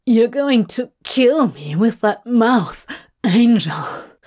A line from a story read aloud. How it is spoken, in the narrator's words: he gasps as their mouths smear together, messy, desperate